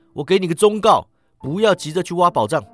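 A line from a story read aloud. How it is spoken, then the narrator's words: Shouting. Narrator (Chinese): 他喊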